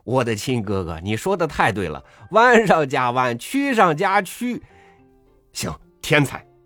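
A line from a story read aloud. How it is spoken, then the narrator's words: Delighted, laughing loudly. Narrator (Chinese): 我听了大悦，且抚掌大笑，说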